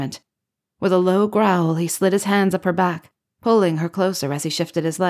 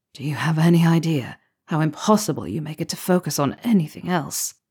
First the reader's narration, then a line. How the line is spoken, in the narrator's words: he asked, his voice rough with affection and desire